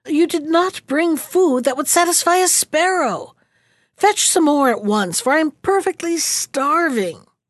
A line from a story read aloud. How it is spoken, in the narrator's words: the Bad One called out to his servant